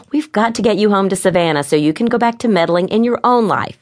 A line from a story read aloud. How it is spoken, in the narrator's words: laughed